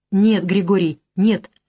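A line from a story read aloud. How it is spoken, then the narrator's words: Calm. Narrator (Russian): спокойно сказал я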